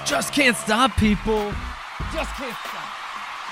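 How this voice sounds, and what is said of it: Morning radio DJ voice. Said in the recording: “That's ... DJ voice. This is like a morning radio, like drive drive to work show.”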